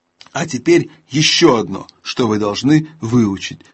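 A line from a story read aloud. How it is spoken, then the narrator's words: Plain. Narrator (Russian): сказал Аслан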